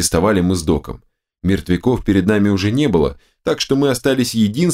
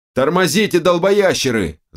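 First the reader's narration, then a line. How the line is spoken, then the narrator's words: Yelled. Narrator (Russian): заорал Док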